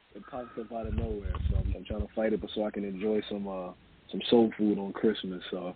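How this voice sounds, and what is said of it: Sick, strained voice from a cold. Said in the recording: “Excuse my voice. I'm a little sick. ... I'm fighting the cold.”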